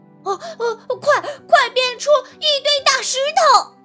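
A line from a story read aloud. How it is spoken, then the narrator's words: Loud urgent shout. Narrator (Chinese): 小和尚大声地喊道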